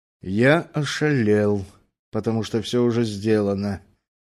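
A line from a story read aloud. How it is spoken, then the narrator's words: Calm statement. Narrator (Russian): спокойно констатировал он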